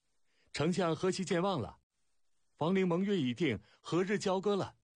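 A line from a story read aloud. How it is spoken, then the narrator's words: Shrill, drawn-out accent. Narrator (Chinese): 尖锐悠长的楚调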